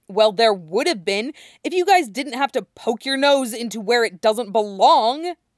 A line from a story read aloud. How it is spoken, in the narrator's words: Matt snaps